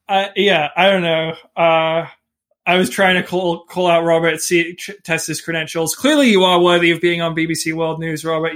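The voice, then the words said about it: Mixed British-American accent. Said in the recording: “your sort of weirdish accent, half British, half American.”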